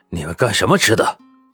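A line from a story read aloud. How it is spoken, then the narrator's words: Displeased. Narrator (Chinese): 他很是不满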